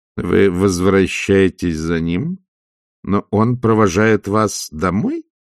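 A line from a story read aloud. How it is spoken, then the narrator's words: Plain. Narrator (Russian): сказала матушка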